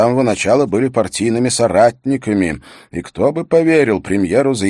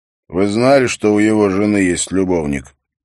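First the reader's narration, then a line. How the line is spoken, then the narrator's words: Chuckling. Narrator (Russian): Торхус хохотнул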